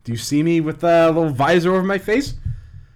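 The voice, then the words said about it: Poor put-on Scottish accent. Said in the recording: “Am I talking in a Scottish accent? ... You are right now. ... I did. It's probably terrible.”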